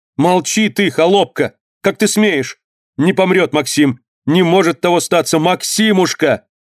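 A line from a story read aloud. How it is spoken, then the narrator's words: Shouting. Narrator (Russian): Крикнула она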